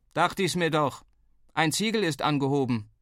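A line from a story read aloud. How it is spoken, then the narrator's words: Calling downward. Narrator (German): rief er nach unten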